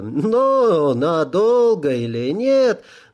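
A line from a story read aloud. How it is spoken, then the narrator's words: Old man laughing. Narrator (Russian): засмеялся старик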